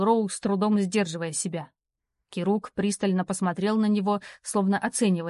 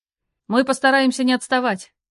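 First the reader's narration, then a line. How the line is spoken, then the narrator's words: Younger brother barking. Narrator (Russian): ответил младший брат и гаркнул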